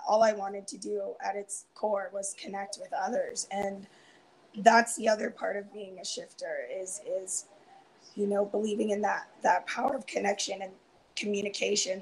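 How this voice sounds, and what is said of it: Strained, fading voice. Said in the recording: “losing my voice a bit ... I'm starting to lose my voice”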